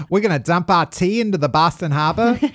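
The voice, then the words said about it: Put-on Boston accent. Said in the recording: “one of my better attempts at a Boston accent, I'd say ... It didn't sound like JFK.”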